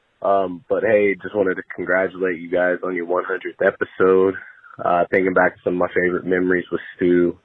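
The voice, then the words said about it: Rough, sick-sounding voice. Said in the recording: “Sorry about my voice. I think I'm struggling from the new COVID-19 lockout variant.”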